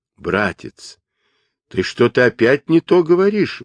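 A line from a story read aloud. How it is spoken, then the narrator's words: Exclaiming. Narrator (Russian): воскликнул Джубадзе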